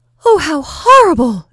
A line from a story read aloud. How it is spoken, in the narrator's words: exclaimed Natasha, wide-eyed